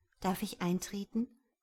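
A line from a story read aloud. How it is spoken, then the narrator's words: Plain question. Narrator (German): fragte sie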